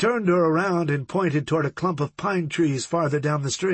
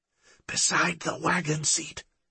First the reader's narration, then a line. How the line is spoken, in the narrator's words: she whispered